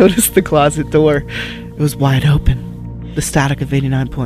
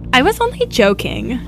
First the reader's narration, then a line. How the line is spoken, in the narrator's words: the walkie-talkie chirped